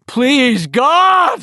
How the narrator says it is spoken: he screamed

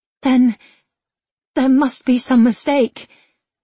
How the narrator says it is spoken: she stammered

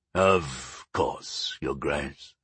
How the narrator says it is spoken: Sire Thalgarch said, with a deep sigh of resignation

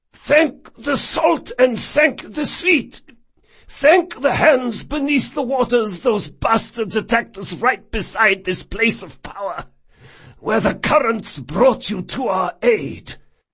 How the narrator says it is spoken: The man's Therin was precise, though heavily accented, and his voice was unsurprisingly hoarse

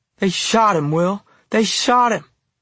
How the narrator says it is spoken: she wailed

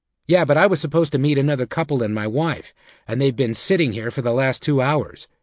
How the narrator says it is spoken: Thane replied

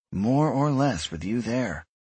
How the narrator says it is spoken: Miriam sighed

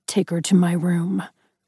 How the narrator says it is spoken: he growled

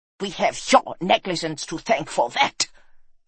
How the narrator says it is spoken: snapped the Baron

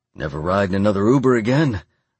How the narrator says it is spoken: I added cheerfully

